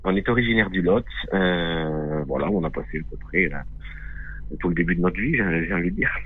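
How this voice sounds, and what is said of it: Strong regional French accent. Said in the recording (French): “Nous sommes originaires du Lot. ... Comme vous pouvez l'entendre, c'est un bon accent.”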